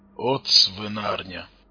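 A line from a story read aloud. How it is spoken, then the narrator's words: Grumbled. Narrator (Russian): буркнул Тарас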